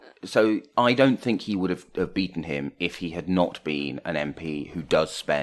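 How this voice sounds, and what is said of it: Usual voice. Nothing is said of it.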